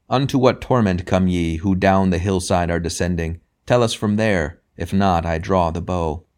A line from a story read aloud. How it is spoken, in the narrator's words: from afar one cried